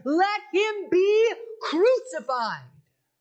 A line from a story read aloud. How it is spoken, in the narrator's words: they shouted all the more